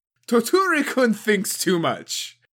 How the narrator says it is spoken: Arasou laughed

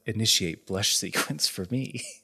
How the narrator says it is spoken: whispers to herself

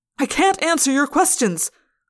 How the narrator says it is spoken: I yelled

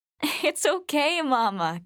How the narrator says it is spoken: Catherine laughed

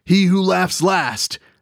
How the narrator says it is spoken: Popsy shouted with a great guffaw

